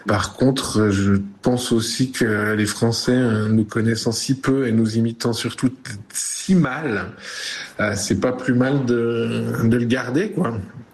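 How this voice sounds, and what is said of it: Swiss French Vaud accent. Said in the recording (French): “pays de Vaud. Ma relation à mon accent est bonne... j'ai pas l'impression d'avoir gommé mon accent pour la France”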